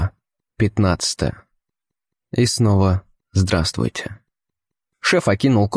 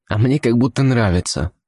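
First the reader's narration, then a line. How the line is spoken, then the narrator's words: Irritated snap. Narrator (Russian): не выдержав, раздраженно огрызнулся я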